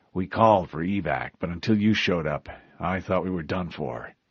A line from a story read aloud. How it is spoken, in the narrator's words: in a quiet voice